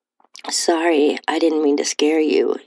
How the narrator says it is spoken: said

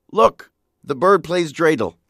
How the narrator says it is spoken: David exclaimed

